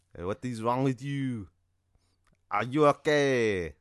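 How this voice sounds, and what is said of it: Put-on French accent. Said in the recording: “this French accent ... You know, like in French.”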